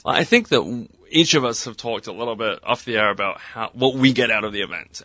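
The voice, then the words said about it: English accent. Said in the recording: “he's not from New York, can you tell? Actually, he's not even from America. Can you tell that he has an accent? ... He's actually born in England.”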